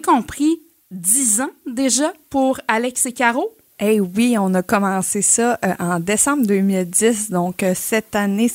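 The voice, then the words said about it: Gaspésie Quebec French accent. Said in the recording (French): “je m'ennuyais de cet accent gaspésien”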